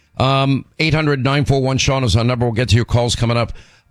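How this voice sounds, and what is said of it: Hoarse voice. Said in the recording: “my laryngitis.”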